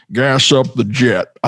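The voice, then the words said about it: Larry Flynt voice impression. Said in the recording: “Woody Harrelson as Larry Flint ... it's kind of almost like an impression accent ... mimicking his voice, that accent”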